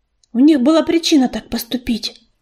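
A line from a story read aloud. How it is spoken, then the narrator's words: Muttering. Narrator (Russian): пробормотала она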